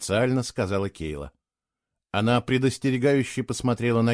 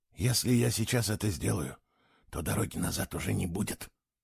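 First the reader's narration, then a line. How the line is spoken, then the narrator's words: Whisper. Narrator (Russian): прошептал он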